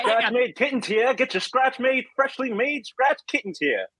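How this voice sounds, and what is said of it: New York accent. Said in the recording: “from New York. If anybody couldn't tell from his accent”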